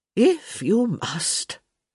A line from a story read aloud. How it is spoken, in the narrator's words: Lady Dee said with a sigh